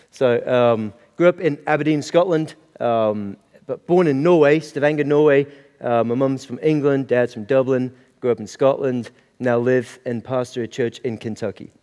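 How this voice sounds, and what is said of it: Mixed, hard-to-place accent. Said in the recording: “your accent's a little bit hard to pick”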